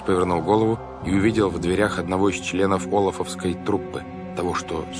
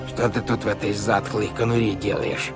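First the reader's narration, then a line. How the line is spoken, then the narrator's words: Creaky voice. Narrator (Russian): произнес он скрипучим голосом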